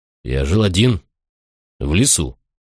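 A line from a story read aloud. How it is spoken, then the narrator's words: Plain. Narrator (Russian): сказал я наконец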